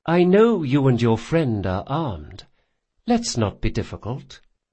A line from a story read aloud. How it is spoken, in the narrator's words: she said in a pleasant, even voice